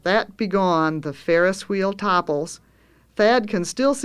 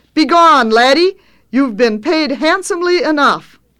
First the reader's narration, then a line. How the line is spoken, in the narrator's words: shouts sternly